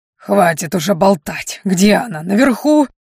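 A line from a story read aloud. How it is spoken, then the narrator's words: Bark. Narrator (Russian): рявкнул Кроули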